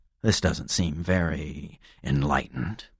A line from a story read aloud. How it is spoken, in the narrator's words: I muttered